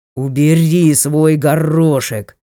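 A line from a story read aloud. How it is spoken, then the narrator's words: Languid voice turning to growl. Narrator (Russian): его ранее томный голос уже заметно сбивался в рычание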